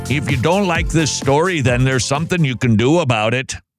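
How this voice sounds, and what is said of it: Minnesota accent. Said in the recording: “Wow, where did that accent come from? ... I slip into a Minnesota accent. ... like I was in the movie Fargo”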